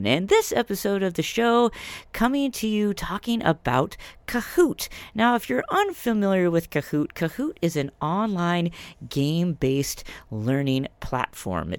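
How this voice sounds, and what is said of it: Congested voice from a cold. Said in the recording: “as you can maybe hear in my voice, playing hurt today, fighting through a little head cold here”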